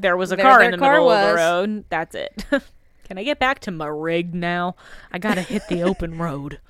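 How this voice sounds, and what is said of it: Impression of a trucker's voice. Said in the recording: “my impression of a trucker”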